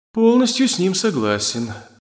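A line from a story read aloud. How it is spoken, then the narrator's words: Disappointed tone. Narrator (Russian): разочарованным тоном заявил Барбатос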